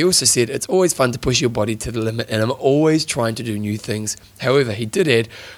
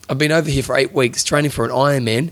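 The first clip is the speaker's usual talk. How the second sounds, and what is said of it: Attempted Australian accent. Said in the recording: “I'm trying to do kind of Australian accent in there”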